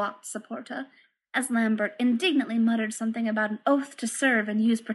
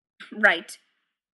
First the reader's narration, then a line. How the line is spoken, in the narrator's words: Mimes grunted